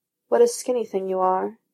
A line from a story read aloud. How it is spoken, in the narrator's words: he murmurs